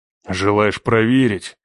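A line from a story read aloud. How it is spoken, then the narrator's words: Growled. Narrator (Russian): прорычал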